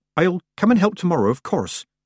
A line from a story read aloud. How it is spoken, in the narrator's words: said Petulia, nervously